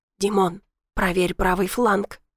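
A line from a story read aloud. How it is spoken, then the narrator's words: Whispered. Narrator (Russian): шепнул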